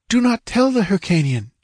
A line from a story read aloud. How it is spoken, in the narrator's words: panted